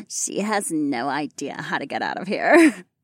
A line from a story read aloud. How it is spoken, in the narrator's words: Marina giggled